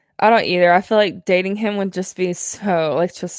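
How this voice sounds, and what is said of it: Usual voice. Nothing is said of it.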